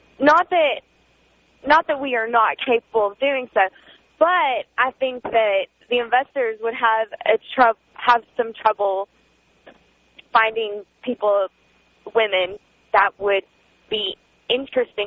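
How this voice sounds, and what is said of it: Southern accent. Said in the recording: “I have a southern accent. Sometimes it slips.”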